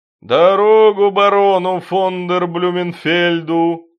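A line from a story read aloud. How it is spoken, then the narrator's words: Booming. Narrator (Russian): прогудел Дон Кабальо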